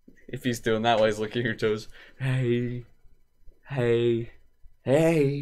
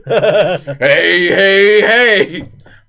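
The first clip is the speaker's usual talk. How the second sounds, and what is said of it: Fat Albert cartoon character voice. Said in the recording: “do the Fat Albert voice.”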